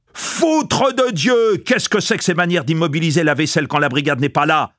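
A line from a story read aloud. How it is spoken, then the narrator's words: Enraged yell, cook. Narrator (French): hurla le cuisinier qui devenait enragé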